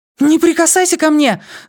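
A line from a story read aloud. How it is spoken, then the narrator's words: Frightened scream. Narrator (Russian): закричала, явно его испугавшись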